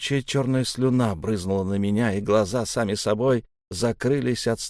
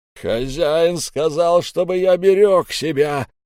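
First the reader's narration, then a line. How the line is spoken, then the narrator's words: Loud yelling man. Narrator (Russian): заорал здоровяк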